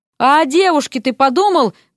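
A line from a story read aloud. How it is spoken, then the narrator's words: Shout. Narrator (Russian): крикнул он Эрику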